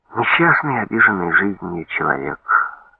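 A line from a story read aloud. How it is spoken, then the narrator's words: Heavy sigh. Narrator (Russian): тяжело вздохнул Поляков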